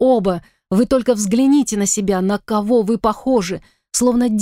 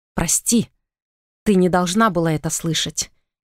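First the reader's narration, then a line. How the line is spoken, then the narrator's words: Quiet apology. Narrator (Russian): тихо произнес Итан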